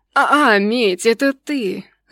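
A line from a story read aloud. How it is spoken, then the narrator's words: Disappointed drawl. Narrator (Russian): разочарованно протянул он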